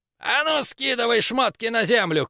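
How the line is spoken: Shouting. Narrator (Russian): крикнул третий

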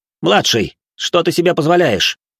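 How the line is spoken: Loud, restrained irritation. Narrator (Russian): сдержав раздражение, громко спросил

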